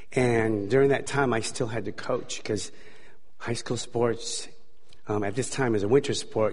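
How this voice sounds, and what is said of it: Hoarse voice. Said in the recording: “my voice is a little hoarse.”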